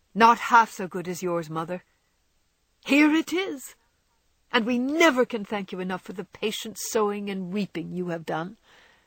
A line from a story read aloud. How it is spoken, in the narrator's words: cried Joe, with the loving impetuosity which she never could outgrow